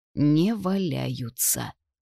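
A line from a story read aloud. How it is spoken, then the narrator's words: Dejected repetition. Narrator (Russian): уныло повторила я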